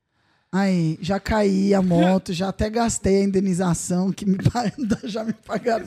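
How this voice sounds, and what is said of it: Sudden mineiro (Minas Gerais) accent. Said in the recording (Portuguese): “Por que você falou com sotaque? ... Comeu um pão de queijo de mineira. ... Indenização, uai. Do nada ela botou um sotaque.”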